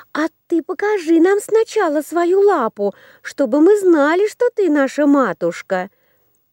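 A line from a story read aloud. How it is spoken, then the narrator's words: Children's shouting chorus. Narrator (Russian): Закричали козляточки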